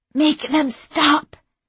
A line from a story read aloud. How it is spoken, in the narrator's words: Sherzad gasped